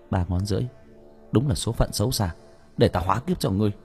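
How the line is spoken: Muttering. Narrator (Vietnamese): Nguyễn Hải lẩm bẩm

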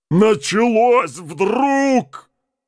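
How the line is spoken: Shouted. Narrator (Russian): крикнул Джакс

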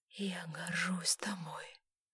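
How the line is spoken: Whisper. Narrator (Russian): прошептала Элизабет

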